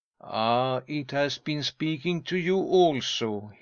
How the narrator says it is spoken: exclaimed

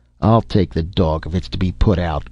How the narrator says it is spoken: growled Dr

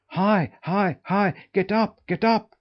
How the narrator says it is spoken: cried the boy

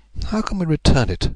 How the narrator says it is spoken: muttered

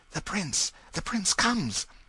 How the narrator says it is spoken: the buzz of low voices exclaiming

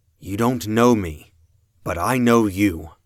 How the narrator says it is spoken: I said

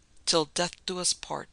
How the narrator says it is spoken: she murmured

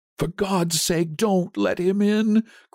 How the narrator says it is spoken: cried the old man, trembling

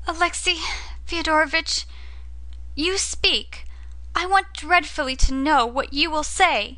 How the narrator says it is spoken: cried Katerina Ivanovna, and burst into tears

